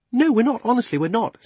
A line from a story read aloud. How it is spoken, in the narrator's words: said Polly hastily